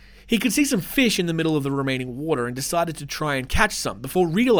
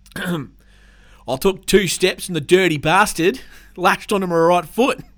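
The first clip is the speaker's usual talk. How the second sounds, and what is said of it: Put-on rural Australian farmer accent. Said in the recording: “I'll do my best Northern Territory Australian farmer accent”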